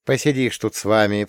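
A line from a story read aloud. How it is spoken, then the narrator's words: Mother grumbling. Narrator (Russian): проворчала мать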